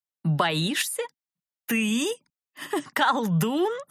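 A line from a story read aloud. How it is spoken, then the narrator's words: Hearty laughter. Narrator (Russian): От души расхохоталась я, несмотря на досаду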